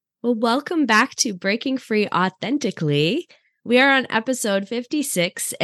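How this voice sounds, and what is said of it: Sick-sounding voice. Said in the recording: “as you can hear in my voice, I am sick”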